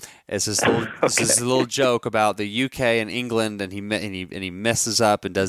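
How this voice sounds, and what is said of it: Usual voice. Nothing is said of it.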